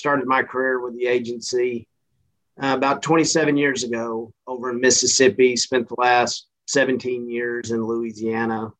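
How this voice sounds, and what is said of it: Central Texas accent. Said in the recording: “This accent is not from Missouri. I'm originally from Central Texas”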